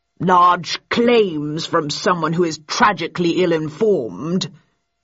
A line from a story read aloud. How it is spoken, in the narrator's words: he intoned patronizingly